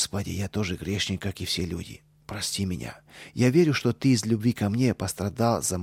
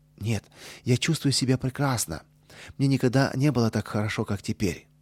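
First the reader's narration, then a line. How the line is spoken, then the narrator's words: Cheerful, joyful. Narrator (Russian): Петя ... поделиться с мамой своей радостью, и весело ответил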